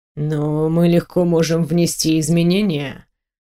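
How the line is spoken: Purring. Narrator (Russian): промурлыкал он

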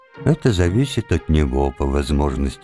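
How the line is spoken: Calm. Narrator (Russian): спокойно сказала дочь

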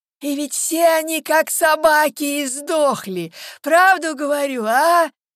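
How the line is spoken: Hoarse voice. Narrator (Russian): Звучал им вслед хриплый голос

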